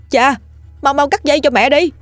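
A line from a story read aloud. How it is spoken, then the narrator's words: Shouting. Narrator (Vietnamese): Anh hét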